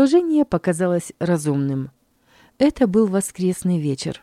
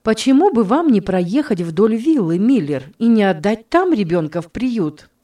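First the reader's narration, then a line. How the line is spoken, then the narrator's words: Exclaimed finally, lady. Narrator (Russian): в конце концов воскликнула госпожа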